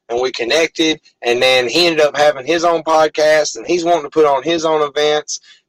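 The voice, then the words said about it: Arkansas Southern accent. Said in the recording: “that guy's definitely from Arkansas. I can tell by his accent.”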